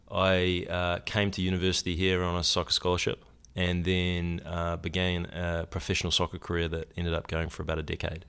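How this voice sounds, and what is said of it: New Zealand accent. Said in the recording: “the accent, because you're a Kiwi, you're from New Zealand”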